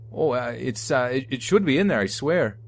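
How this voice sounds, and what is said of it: Canadian accent. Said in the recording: “My uncle continued to speak with a Canadian accent.”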